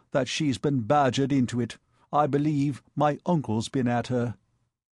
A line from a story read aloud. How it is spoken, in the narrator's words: he said solemnly